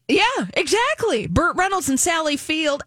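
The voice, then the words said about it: Imitates another person's voice. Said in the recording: “That's my Burt Reynolds impression.”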